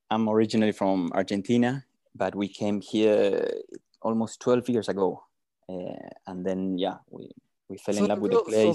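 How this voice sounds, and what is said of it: South American accent. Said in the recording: “your accent doesn't sound South African ... You've got to be from South America, man.”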